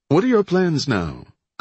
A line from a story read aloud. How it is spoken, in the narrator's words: Cope asked cheerfully